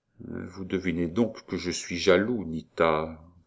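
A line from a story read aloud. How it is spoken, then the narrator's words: Whispered. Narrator (French): prononça tout bas Roland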